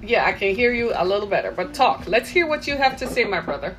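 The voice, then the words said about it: Caribbean accent. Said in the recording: “you sound as if you have an accent ... I'm from the Caribbean”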